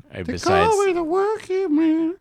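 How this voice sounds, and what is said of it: Very high-pitched rock singer imitation. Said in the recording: “my Getty Lee imitation ... That was as high as you get.”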